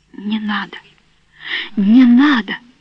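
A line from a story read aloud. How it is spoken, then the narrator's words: Hoarse furious whisper. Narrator (Russian): Она ... хрипло и яростно шептала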